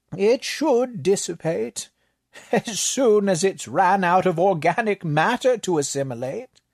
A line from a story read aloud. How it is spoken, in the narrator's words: the librarian offered with a chuckle